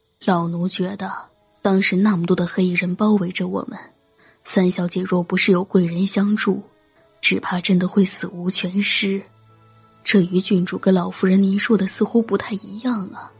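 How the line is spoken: Soft voice. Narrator (Chinese): 张嬷嬷轻声说道

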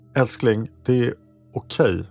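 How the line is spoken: Plain. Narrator (Swedish): sa Herbert

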